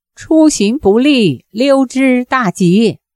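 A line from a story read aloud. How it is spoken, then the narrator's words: Calling out from afar. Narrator (Chinese): 遥遥望见一灯，叫道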